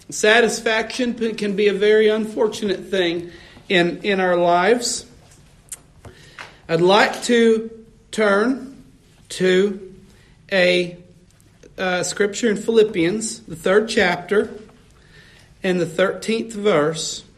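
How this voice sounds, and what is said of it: Slightly strained, rough voice. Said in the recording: “My voice is just a little bit messed up”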